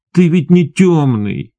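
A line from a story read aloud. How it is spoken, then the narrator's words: Almost plaintive. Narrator (Russian): почти жалобно сказал он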